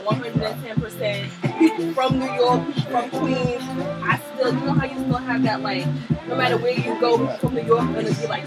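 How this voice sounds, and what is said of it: Strong Queens New York accent. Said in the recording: “I still got my hardcore like Queens accent”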